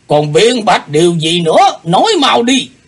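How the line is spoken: Roaring demand. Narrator (Vietnamese): Lão nhân gầm hỏi

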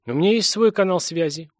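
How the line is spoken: Gruff mutter. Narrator (Russian): буркнул Корман

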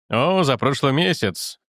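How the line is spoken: Plain. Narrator (Russian): говорит Вокрас

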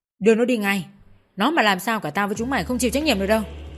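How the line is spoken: Harsh bark. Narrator (Vietnamese): Tên cầm đầu táo quát

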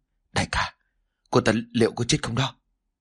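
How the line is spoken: Trembling. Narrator (Vietnamese): run rẩy

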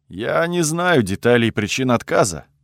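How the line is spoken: Grim, sighing. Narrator (Russian): добавил Луин, мрачно вздохнув

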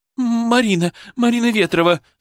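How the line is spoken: Sobbing. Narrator (Russian): всхлипнула она

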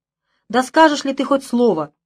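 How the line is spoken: Angry shout. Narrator (Russian): крикнула в гневе

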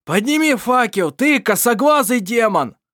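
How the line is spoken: Angry yelling. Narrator (Russian): заорал Ировар в гневе

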